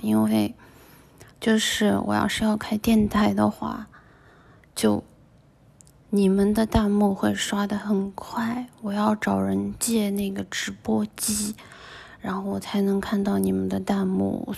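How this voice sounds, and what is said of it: Speaking softly, quiet voice. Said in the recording (Chinese): “我只能小声说话……我就只能声音小一点”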